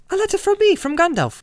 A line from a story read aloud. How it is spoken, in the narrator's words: cried Frodo